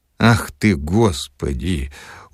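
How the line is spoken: Dejected exclamation. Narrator (Russian): уныло воскликнул Филипп Филиппович

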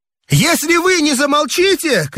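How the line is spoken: Shouting, choking with rage. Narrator (Russian): крикнул я, захлебываясь от злости

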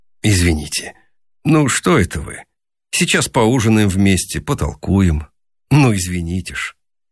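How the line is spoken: Embarrassed speech. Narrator (Russian): Рогов смущенно сказал

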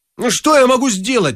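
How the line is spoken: Irritated question. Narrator (Russian): раздраженно спросил Персидский

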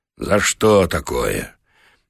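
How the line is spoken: Deep sigh. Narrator (Russian): Михайло глубоко вздохнул

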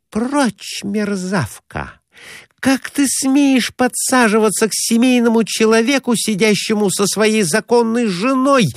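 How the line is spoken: Indignant exclamation. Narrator (Russian): воскликнула она

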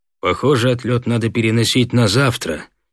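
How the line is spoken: Gloomy. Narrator (Russian): мрачно сказал Соколов

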